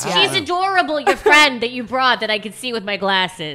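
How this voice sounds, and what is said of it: Italian-American New York accent. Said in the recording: “You sound like my stepmother... She's full-blooded Italian. It sounds exactly like that... that's more Bronx-ish. She's more Central New York.”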